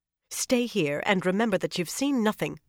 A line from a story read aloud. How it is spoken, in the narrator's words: Elaenia snapped at her own meager retinue